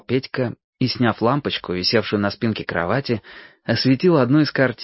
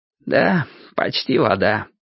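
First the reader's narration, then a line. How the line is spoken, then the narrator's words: Answered sadly. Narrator (Russian): грустно отвечал Петька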